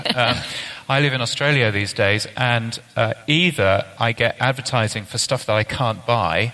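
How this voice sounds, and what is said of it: British accent. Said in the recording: “as you can tell from my aloof British accent.”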